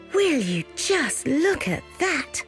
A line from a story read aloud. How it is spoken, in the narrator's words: gasped the three sisters when they saw the table set before them